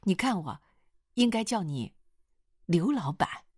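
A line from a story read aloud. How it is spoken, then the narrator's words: Hurried correction. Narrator (Chinese): 易秦娥急忙改口说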